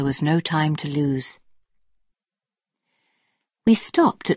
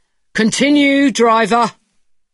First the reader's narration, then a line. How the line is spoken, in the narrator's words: Then he took my cup and shouted